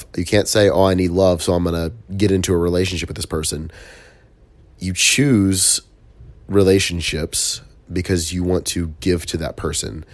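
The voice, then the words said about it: Congested, stuffy-nosed voice. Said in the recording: “I still can't breathe through my nose entirely. It sucks, so my voice isn't 100% there.”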